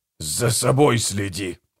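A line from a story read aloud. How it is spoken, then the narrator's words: Hissed. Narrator (Russian): прошипел Гегель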